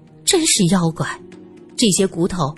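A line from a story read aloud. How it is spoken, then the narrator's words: Sighing. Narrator (Chinese): 他最后叹了口气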